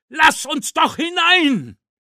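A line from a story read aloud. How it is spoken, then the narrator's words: Shouting. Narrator (German): schrie er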